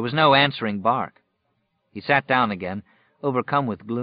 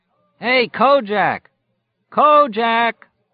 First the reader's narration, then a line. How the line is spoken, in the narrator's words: His voice echoed lonesomely away into the wastes